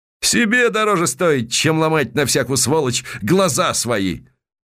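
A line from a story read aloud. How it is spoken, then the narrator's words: Loud laughter. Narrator (Russian): Палага захохотала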